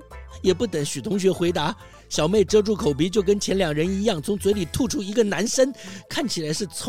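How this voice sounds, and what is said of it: Usual voice. Nothing is said of it.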